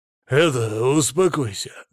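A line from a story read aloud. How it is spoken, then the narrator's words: Curt remark. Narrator (Russian): бросил ему сутулый напарник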